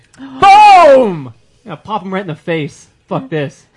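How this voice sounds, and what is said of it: Yelling angrily. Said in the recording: “Sorry for yelling.”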